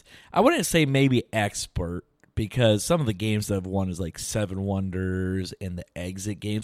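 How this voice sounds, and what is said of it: Strained, hoarse voice. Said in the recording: “excuse my voice, just got back from a football game yesterday, and was just yelling a little bit”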